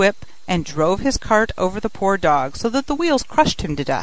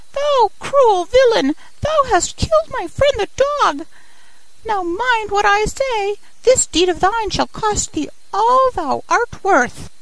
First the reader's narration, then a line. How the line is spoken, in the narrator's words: cried the sparrow